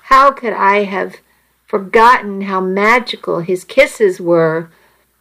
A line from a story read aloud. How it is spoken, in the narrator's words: I moaned softly